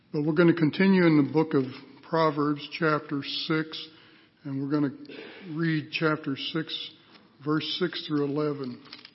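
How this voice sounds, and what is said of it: Worn-out, strained voice. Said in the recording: “My voice is about played out.”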